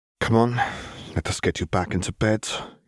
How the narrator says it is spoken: he sighed

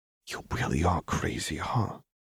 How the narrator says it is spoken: Echo whispered in a tone low enough that Lux barely caught it

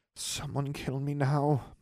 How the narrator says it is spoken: muttered Daphne

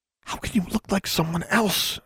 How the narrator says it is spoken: She whispered

